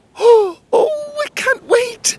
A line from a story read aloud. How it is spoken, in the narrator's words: Emerald squealed